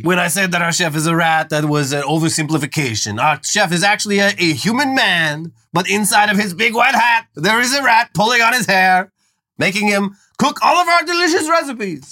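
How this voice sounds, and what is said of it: Put-on French accent. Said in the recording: “These are the best New York accents you've ever heard. ... Well, I was doing French.”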